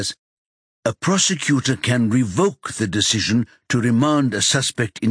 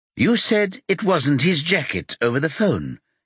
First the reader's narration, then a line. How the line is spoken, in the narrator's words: she says in a bright voice